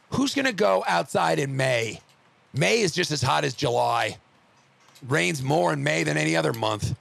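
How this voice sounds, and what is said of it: Slightly hoarse voice. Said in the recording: “my voice is still a little hoarse.”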